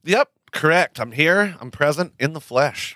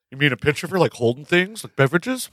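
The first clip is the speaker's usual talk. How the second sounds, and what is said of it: Ernie character impression. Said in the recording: “That's my Ernie impression.”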